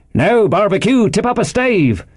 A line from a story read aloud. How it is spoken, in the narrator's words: cried one voice